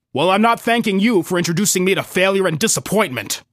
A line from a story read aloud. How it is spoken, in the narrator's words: I snapped